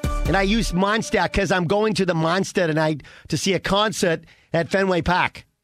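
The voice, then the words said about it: Put-on regional accent. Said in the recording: “How was that with the accent? Not bad. It's getting better.”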